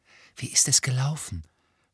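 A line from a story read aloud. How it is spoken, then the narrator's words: Whisper. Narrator (German): flüsterte Hermine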